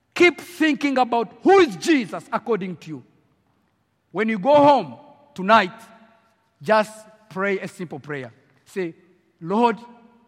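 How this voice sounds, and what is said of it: African French-accented English. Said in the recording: “young evangelist from Africa with a French accent.”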